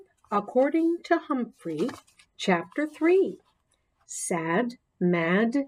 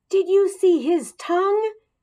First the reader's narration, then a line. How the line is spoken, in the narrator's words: AJ bellowed